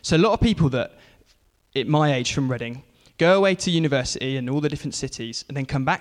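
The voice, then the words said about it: English accent from near London. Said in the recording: “I'm from a town called Reading, down near London. You might have heard it in the accent a little bit.”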